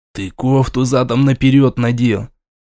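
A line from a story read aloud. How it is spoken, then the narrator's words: Menacing whisper. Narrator (Russian): грозно шепнуть ему на ухо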